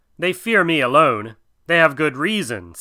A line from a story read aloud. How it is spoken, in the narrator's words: said Kaa